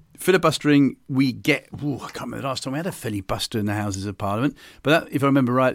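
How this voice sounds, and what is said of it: Non-American English accent. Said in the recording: “As you can tell by my accent, I'm not American. ... Nor are you. ... You're not Australian either.”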